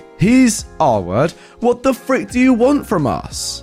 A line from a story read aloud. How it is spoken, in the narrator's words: the father yelled extremely loudly